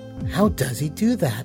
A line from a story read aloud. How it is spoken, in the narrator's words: She muttered